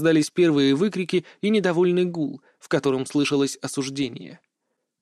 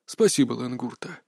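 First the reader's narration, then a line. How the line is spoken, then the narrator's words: Tired. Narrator (Russian): устало сказал Лэн Дунте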